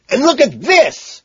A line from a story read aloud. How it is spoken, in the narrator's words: scream triumphantly